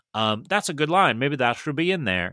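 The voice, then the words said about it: Weak put-on Western accent. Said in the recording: “That's my Western accent. It didn't work out well.”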